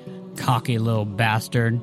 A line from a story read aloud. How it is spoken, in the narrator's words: growled Haskell